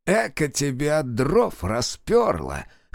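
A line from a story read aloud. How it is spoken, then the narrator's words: Laughing. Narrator (Russian): хохотнул Фикса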